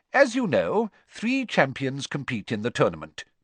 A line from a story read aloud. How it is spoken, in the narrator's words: Dumbledore went on calmly